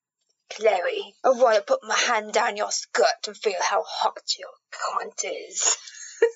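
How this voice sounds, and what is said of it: Menacing audiobook narrator voice. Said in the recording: “you gotta do it in, like, the narrator voice ... you sound terrifying”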